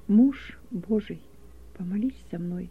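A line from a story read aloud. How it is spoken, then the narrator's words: Barely audible plea. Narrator (Russian): еле слышно попросил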